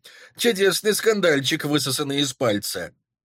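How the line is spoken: Forced casual laugh. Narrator (Russian): Стараясь говорить непринужденно, рассмеялся он

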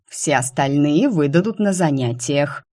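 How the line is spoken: Cranky hiss. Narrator (Russian): сварливо прошипел Нак

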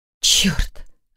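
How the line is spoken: Breathed exclamation. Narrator (Russian): выдохнула Саша

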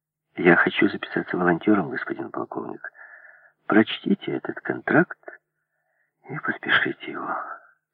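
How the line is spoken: Said with a sigh. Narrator (Russian): сказал он, вздохнув

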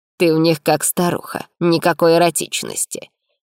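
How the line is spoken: Mocking lament. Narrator (Russian): причитал насмешливо

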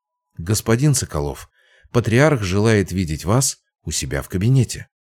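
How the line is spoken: Elderly butler speaking quietly. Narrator (Russian): престарелый дворецкий тихо сказал

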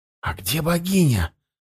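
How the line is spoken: Whispered question. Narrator (Russian): шепотом спросил

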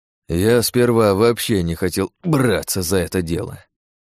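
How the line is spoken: Sighing. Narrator (Russian): вздохнул каратель

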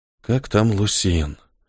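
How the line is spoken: Whispered. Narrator (Russian): прошептал Ниэль и вздохнул

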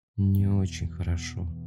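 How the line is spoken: Mumble. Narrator (Russian): промямлил он

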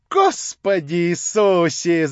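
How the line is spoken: Shrieking furious woman. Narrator (Russian): завопила фурия

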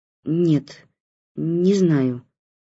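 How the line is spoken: Mumbling, grandmother. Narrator (Russian): начала мямлить бабушка

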